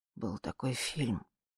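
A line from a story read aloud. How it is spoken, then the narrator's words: Quiet. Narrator (Russian): тихо сказала я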